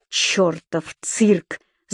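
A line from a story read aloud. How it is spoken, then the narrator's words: Vicious hiss. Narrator (Russian): злобно прошипел Дик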